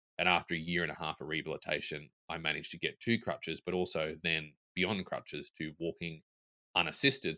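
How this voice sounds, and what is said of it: Tennessee Southern American accent. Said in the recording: “As you can tell from my accent, I live in Nashville, Tennessee, in the USA.”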